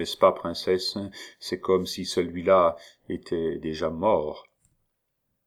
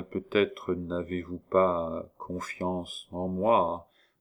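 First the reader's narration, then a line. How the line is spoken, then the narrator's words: Slow. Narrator (French): prononça-t-il lentement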